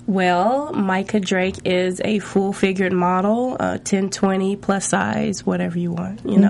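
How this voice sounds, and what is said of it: Southern US accent. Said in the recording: “I'm from Nashville, Tennessee, actually... I'm from the South... I'm trying to mask my accent right now, but it still comes out... I hear it”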